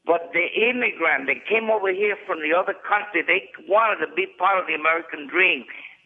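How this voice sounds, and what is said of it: Puerto Rican accent. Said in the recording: “I was born in Puerto Rico, and I know that I speak with an accent.”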